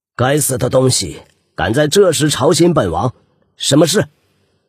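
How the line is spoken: Harsh angry scolding. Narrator (Chinese): 他厉声骂道

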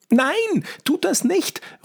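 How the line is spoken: Determined girl's call. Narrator (German): ruft ein weiteres Mädchen entschlossen

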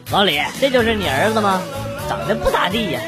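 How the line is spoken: Blurted remark. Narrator (Chinese): 他同事不禁对老爸说

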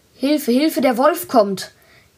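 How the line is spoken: Called out again. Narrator (German): Er rief wieder

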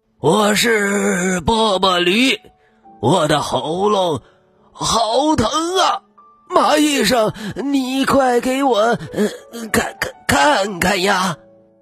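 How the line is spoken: Hoarse voice from outside. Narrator (Chinese): 一个沙哑的声音从门外传来

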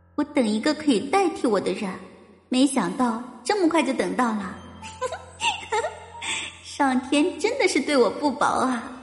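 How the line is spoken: Eerie laughter. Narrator (Chinese): 惊悚的笑声

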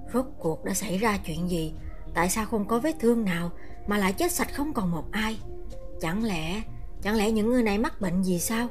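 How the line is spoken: Soft question. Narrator (Vietnamese): Lão Lý khẽ hỏi

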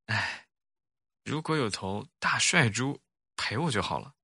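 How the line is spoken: Sighing. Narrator (Chinese): 小猪叹了口气

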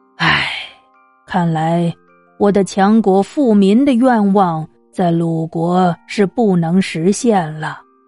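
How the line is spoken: Long sigh. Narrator (Chinese): 孔子也长叹着说

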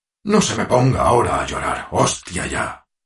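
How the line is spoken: Roaring man. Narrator (Spanish): bramó el hombre

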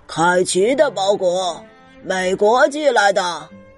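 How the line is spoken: Shouting. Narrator (Chinese): 他大喊着

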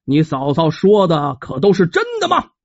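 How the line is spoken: Angry question. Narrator (Chinese): 胡国峰胡县令怒火中烧啊，带着气儿问旁边的黄二郎

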